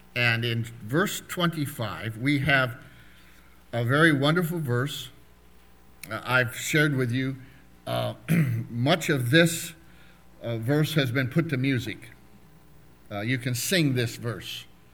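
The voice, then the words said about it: Rough, hoarse voice. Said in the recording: “My voice is a little rough this morning”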